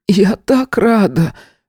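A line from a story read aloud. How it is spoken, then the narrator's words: Hoarse, mother's voice. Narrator (Russian): хрипло произнесла мама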